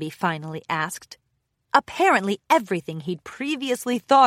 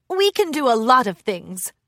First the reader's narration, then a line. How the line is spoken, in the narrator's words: Thorax laughed